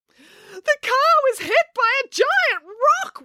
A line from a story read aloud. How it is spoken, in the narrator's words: wailed Daisy